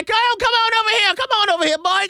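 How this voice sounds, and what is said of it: Put-on Southern accent. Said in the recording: “this weird Southern accent”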